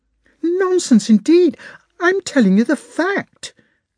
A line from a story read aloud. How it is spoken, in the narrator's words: said Natasha indignantly